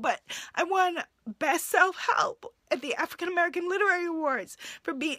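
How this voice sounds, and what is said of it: Teary, emotional voice. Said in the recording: “my hand is shaking as I'm saying this ... I don't know why I'm getting teary talking about it now”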